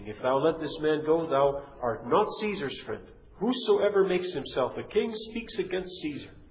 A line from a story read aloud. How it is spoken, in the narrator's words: the Jews cried out, saying